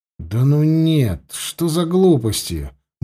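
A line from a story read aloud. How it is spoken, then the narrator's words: Muttered under breath. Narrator (Russian): буркнул он про себя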